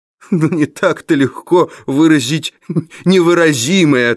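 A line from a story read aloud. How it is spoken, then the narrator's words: Laughing. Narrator (Russian): ответил, смеясь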